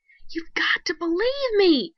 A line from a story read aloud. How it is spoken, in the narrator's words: screamed Crawford